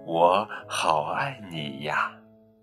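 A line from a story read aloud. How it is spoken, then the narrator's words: Soft. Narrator (Chinese): 轻声地说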